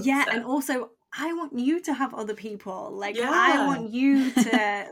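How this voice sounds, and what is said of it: Calm voice, British accent. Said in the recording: “your voice is so calming and I literally love it so much. Your accent, I'm obsessed with it ... the old British sister ... our first British guest”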